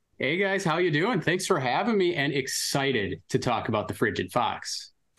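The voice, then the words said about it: Wisconsin accent. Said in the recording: “We dig the Wisconsin accent.”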